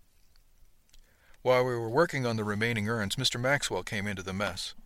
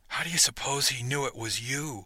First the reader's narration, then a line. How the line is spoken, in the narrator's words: Pip whispered conspiratorially